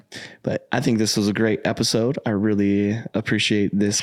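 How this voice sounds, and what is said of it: Hoarse voice. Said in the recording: “my voice is so hoarse today. And if I really, really talk, it's ... sound like I'm going through puberty.”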